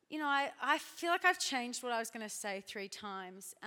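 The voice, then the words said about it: Australian accent. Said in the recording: “it will be the Australian ... that accent's so adorable ... I get lots of points everywhere I go with this accent”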